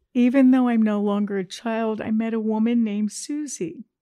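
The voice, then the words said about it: Crying, emotional voice. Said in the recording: “Oh, she's crying. It's okay to cry”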